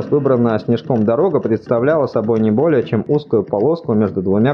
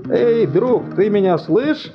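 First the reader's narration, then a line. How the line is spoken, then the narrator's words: Shouted in reply. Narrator (Russian): прокричали в ответ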